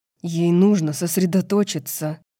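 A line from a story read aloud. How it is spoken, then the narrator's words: Through gritted teeth. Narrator (Russian): процедил сквозь зубы Итан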